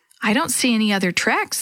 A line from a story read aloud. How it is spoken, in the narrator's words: Sammy said